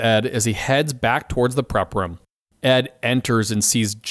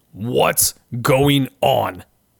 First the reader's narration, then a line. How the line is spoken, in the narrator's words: Ed asks Jenny and Dennis angrily